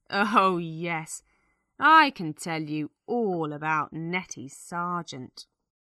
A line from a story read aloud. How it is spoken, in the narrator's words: She laughs and says